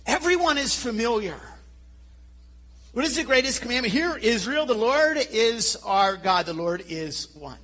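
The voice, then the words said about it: Philadelphia / Nova Scotia accent. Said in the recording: “my Philadelphia / Nova Scotia accent.”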